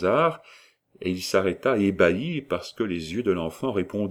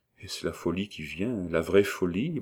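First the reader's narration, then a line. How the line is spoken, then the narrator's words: Stammering, heartsick. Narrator (French): balbutia-t-il avec un serrement de cœur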